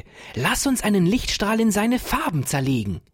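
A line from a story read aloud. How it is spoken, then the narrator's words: Joyful calling. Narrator (German): rief Ferdinand voller Freude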